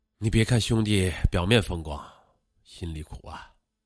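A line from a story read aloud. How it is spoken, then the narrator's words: Sighing, tipsy. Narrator (Chinese): 几杯酒下肚，陈凯丽叹了口气说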